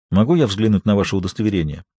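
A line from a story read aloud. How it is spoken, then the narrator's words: Calm inquiry. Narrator (Russian): осведомился Багиров спокойным голосом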